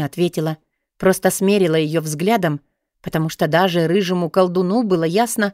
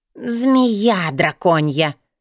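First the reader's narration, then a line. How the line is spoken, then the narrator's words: Hissing. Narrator (Russian): прошипела Наяда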